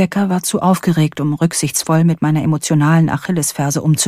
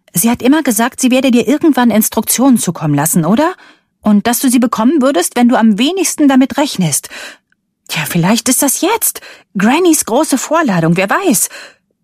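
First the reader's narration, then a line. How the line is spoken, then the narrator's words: Loud and defiant. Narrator (German): Rebeccas Stimme klang laut und trotzig, weil ihr vermutlich klar wurde, wie ungeheuerlich ihre Vermutung war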